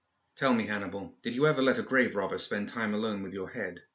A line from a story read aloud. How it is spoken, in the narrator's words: asked Eva